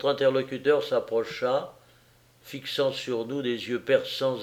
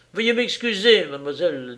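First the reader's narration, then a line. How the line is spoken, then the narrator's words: Brusque. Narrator (French): dit-il d'un ton brusque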